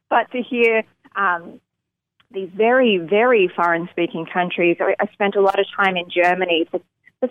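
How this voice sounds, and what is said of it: Strong accent, hard for Americans. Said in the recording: “my accent, because Americans alone sometimes are like, "What are you saying?"”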